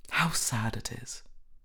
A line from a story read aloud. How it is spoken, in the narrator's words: murmured